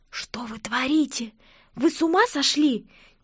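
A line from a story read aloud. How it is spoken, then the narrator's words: Nervous hiss. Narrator (Russian): Нервно прошипела я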